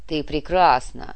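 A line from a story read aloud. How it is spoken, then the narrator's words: Loud rough male voice. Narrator (Russian): громкий мужской голос грубо вторгся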